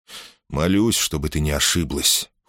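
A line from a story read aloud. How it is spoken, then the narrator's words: Cold. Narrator (Russian): холодно произнес Перикл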